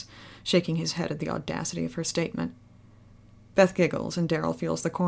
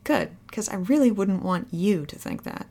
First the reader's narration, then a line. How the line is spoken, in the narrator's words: she says